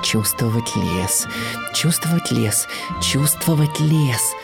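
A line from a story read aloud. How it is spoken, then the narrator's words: Muttering to himself. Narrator (Russian): бормотал себе под нос Бэмби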